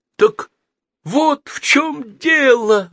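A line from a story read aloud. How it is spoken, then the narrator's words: Exclaiming. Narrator (Russian): воскликнул Геннадий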